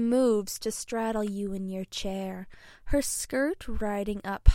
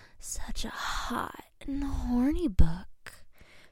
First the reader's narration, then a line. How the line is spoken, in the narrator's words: she whispers in your ear